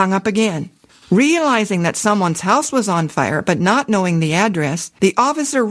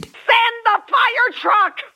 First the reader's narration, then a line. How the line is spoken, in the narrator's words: Again, the hysterical voice screamed